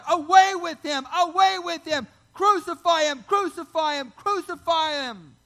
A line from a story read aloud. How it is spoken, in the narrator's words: And they cried out